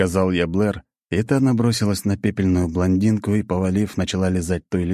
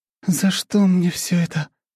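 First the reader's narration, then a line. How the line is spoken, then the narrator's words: Moan. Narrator (Russian): простонала Анна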